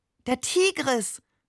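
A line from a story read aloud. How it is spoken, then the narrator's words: Delighted exclamation. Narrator (German): rief er entzückt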